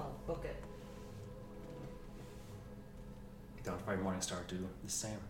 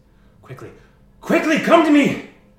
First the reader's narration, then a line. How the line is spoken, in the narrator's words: And Moonseeker screams